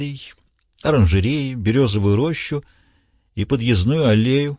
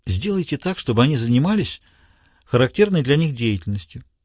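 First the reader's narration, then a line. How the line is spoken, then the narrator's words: Soft suggestion. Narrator (Russian): мягко предложил Краснер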